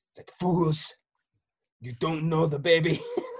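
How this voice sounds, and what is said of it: Imitates another person's voice. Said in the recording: “my best Werner Herzog impersonation”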